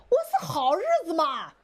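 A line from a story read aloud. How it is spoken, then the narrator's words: Shouting from below. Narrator (Chinese): 底下有人喊了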